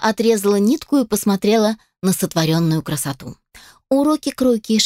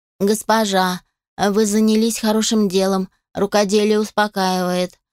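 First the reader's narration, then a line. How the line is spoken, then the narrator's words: Flat wooden tone. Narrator (Russian): сказала деревянным тоном Алия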